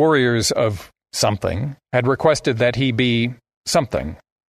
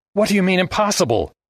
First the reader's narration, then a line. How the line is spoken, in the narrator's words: Armitage yelped